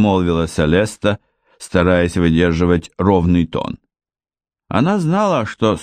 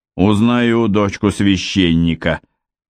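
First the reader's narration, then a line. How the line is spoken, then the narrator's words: Malicious smirk. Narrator (Russian): зло ухмыльнулся Гровер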